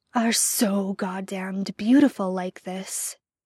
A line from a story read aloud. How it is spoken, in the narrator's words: growls possessively